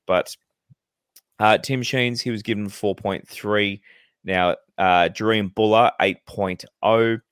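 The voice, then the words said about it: Hoarse, failing voice. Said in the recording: “my voice is starting to go a little bit again, but... not as bad as last week”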